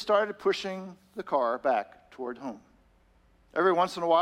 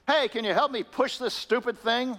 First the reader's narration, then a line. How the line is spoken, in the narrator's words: he yelled at the man